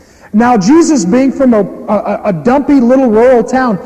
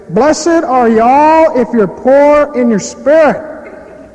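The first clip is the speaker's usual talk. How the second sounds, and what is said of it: Exaggerated rural hick accent. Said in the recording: “likely had a major hick accent, which means he probably sounded, in Jewish ears, something like this.”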